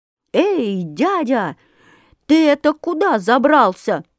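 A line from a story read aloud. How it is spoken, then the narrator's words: Very loud frightened shout. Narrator (Russian): закричал комар Комарович на весь лес, да так громко, что даже самому сделалось страшно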